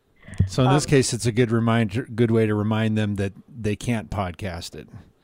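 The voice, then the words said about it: Sarcastic joking tone. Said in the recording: “being sarcastic”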